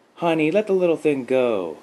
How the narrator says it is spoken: called out

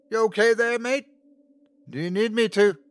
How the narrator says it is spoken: Luke yelled

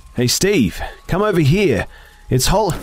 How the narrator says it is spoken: I shouted

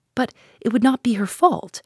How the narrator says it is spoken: I cried with rising indignation

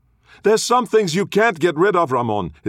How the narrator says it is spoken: his sister yelled

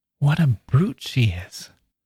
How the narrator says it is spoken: Roby turned back to whisper to the others

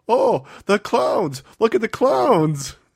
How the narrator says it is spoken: Nash yells out

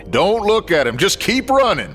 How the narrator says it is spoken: Scooter barked

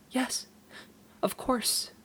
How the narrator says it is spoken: sobbed

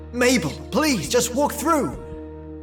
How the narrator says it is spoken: I yelled

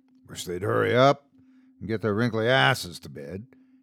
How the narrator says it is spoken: he muttered under his breath

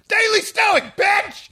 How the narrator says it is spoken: I yelled at

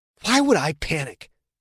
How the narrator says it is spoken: Quentin hissed

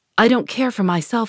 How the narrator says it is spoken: he exclaimed

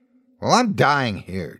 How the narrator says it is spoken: Gina snapped

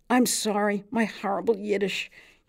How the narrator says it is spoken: yelled Fischkoppel

